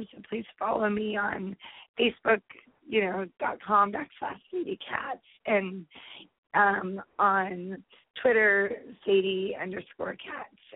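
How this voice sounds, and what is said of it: Scratchy voice. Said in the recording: “hopefully next time my voice won't be so scratchy”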